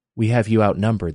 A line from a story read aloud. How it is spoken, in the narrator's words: the old woman said quietly to Jenny